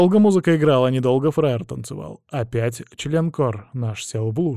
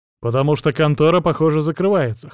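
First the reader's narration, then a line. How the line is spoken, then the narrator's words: Wry snort. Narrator (Russian): хмыкнул я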